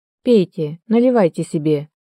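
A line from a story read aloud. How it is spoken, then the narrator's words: Flat colorless voice. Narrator (Russian): бесцветным голосом проговорил Михаил Сергеевич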